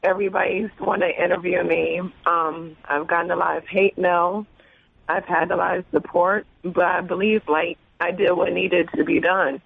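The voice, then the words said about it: Hoarse, fading voice. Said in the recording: “As you can hear, like, my voice is leaving.”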